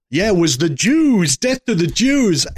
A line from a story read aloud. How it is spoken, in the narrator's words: someone yells out